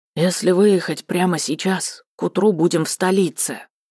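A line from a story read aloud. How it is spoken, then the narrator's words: Quiet. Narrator (Russian): негромко проговорил один из них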